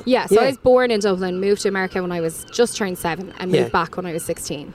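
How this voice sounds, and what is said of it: Mixed American and Irish accent. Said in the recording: “my accent because it's a mix of American and Irish”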